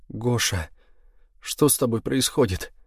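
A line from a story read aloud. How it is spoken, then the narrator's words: Asked through tears. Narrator (Russian): спросила она сквозь слезы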